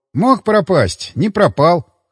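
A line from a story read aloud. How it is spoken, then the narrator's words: Wry snort. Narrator (Russian): хмыкнул я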